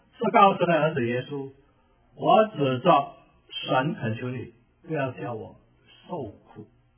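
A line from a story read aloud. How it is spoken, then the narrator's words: Loud crying out. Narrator (Chinese): 鬼，他们就大声呼叫说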